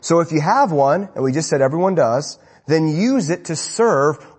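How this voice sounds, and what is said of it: Usual voice. Nothing is said of it.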